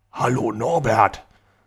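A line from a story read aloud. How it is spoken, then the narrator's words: Pleasant deep voice. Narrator (German): sagte er mit angenehm tiefer Stimme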